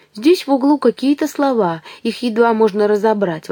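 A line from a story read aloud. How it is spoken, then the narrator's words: Exclaiming. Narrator (Russian): воскликнул Ив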